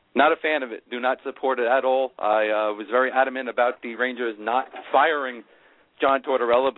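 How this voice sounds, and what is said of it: Strong New York accent. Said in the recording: “your New York accent is worse than I remember ... It's so bad, even I can hear it.”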